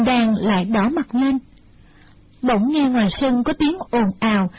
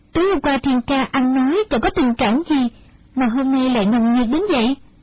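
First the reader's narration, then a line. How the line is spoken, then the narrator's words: Smiling question. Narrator (Vietnamese): Đinh Đan mỉm cười hỏi lại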